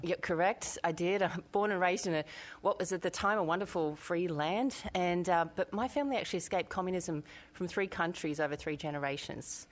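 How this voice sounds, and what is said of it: Australian accent. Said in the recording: “I can tell from your accent, in Australia.”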